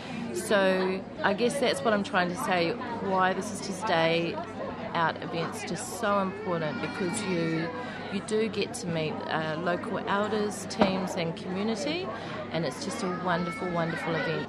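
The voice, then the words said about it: New Zealand accent. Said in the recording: “as you can tell by my accent, I am from New Zealand”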